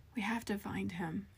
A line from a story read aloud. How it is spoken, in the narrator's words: Casey whispered